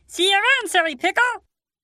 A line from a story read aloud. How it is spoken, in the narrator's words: yelled back as they left